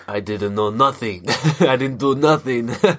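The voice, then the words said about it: Imitates a character's funny accent. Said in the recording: “This man's accent. Oh. Oh my gosh, it's so funny.”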